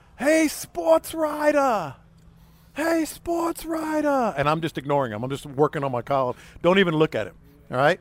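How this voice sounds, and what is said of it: Big New York accent. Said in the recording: “big New York accent.”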